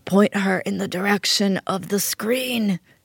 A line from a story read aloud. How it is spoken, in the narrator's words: she croaked like a dying Don Corleone